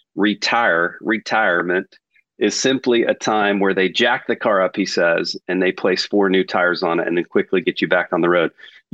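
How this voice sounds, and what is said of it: Texas accent. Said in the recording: “If I say it with my Texas accent”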